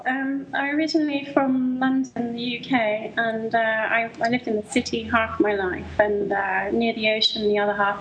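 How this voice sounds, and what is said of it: Noticeable British accent. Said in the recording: “You obviously have a British accent ... Yeah, it's very noticeable.”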